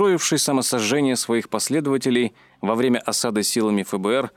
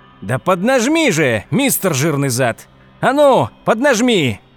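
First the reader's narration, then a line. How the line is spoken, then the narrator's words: Shouting. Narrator (Russian): кричал Хауэлл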